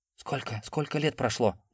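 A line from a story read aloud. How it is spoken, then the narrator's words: Quiet, hesitant. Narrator (Russian): Он произнес это тихо, точно сомневаясь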